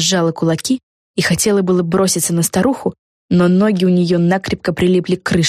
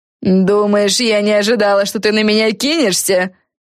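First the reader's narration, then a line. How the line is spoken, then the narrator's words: Sarcastic. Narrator (Russian): Язвительно проговорила Силия Крейфиш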